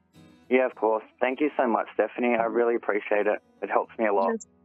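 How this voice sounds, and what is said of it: Australian accent. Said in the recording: “I love the accent. Boy, I tell you, I could listen to the Australian and the accents all day.”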